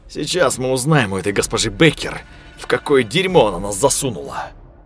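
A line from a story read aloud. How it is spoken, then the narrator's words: Angry muttered remark. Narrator (Russian): зло проронил Виктор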